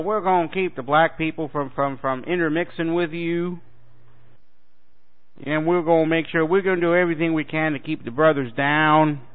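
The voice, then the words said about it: Put-on southern US accent. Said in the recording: “I say that with a southern accent,”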